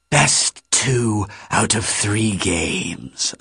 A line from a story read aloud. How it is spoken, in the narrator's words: Acererak rasped